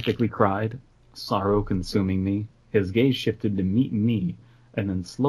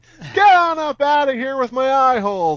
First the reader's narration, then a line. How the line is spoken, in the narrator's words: I shouted